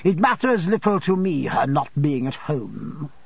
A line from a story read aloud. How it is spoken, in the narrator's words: said Rosa Dartle, haughtily